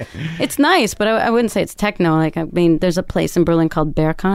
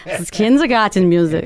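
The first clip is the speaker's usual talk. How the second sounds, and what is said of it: Put-on German accent. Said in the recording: “you have to say it in a German accent”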